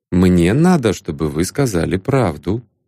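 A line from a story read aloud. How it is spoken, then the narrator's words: Plain. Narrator (Russian): ответил Ванзаров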